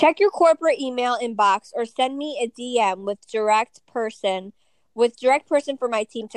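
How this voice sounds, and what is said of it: Usual voice. Nothing is said of it.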